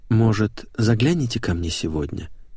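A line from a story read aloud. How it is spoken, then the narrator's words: Timid request. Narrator (Russian): робко попросил Веня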